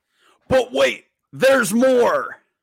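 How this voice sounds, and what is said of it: Billy Mays impression, infomercial pitchman. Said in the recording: “my impression of Billy Mays”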